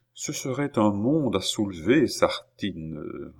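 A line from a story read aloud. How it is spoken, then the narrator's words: Murmured. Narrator (French): murmura-t-il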